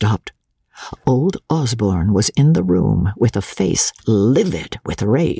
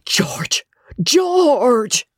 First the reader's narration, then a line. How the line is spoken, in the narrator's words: the sisters cried